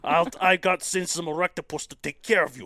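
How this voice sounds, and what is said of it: Put-on Russian accent. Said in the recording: “Is that like Russian?... That was good... I'm pretty good with my Russian accent.”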